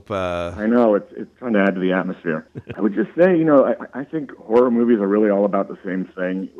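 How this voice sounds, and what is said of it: Creaky, fading voice from a cold. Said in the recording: “my voice is starting to go, battling this cold ... It's got that creaky voice.”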